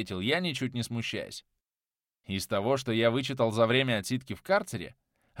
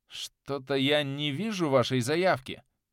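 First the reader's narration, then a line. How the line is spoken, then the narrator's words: Uncertain voice. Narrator (Russian): неуверенно произнес голос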